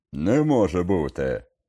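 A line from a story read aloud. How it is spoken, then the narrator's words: Barked shout. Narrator (Ukrainian): гаркнув він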